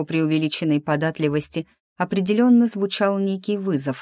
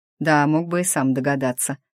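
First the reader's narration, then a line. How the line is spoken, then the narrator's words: Snort. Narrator (Russian): хмыкнул он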